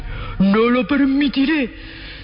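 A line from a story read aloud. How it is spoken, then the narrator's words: Thunderous roar. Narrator (Spanish): rugió el emperador con voz de trueno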